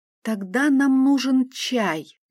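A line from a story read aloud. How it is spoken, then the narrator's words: Thoughtful reply. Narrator (Russian): задумчиво отозвалась я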